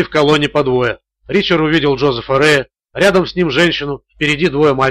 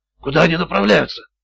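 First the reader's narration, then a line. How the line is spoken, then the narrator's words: Whispered question. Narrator (Russian): шепотом спросил Маград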